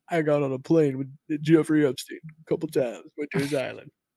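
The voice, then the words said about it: Imitates another person's voice. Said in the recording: “that's my Bill Clinton, my best Bill Clinton impersonation.”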